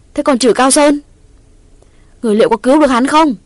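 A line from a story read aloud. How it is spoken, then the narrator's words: Loud shout. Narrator (Vietnamese): Quyết thét lớn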